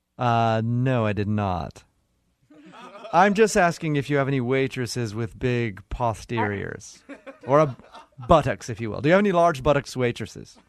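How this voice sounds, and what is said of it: Disguised fake voice. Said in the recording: “now you're using a fake voice.”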